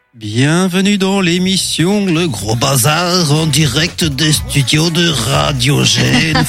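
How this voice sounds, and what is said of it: Put-on Bruges Flemish accent. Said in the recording (French): “C'est quoi cet accent? ... mais c'est quoi cet accent? ... C'est l'accent de Bruges.”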